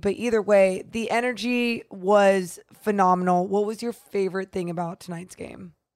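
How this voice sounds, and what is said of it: Hoarse, nearly lost voice. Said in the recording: “I don't even know why my voice is gone.”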